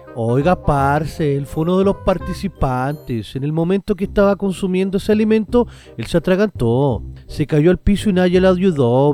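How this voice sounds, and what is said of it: Put-on Colombian Spanish accent. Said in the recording (Spanish): “esto tendría que leerlo como colombiano”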